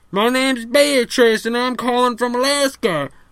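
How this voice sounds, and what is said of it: Put-on Southern accent. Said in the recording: “you sound a little southern.”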